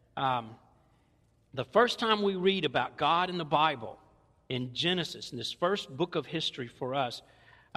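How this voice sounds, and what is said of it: Southern American accent. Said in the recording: “with your southern accent, we don't know if you're saying hollow, hallowed, or hello”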